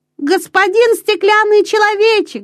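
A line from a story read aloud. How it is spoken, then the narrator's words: Shouted. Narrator (Russian): закричал Петер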